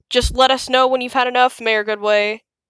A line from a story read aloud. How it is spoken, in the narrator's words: chuckled Mayor Humdinger